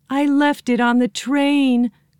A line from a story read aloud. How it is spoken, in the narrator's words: cried Joe